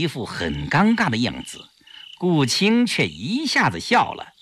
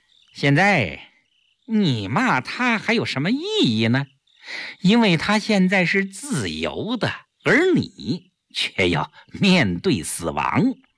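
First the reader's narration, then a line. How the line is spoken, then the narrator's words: Smug, laughing. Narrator (Chinese): 顾青自负地笑笑，对萧啸天说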